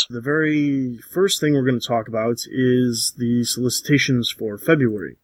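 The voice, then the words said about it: Strained voice from swollen throat. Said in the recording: “apologize for my voice. My throat is completely swollen ... my voice may sound a little different than normal”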